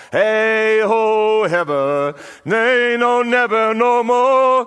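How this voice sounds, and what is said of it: Poor singing voice. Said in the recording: “excuse my voice, I'm a rubbish singer”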